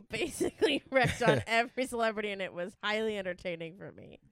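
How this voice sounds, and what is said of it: Usual voice. Nothing is said of it.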